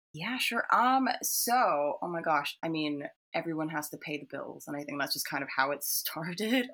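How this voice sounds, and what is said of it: Hybrid accent, sounds partly American. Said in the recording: “people mistake me for American anyway. I have this weird hybrid accent.”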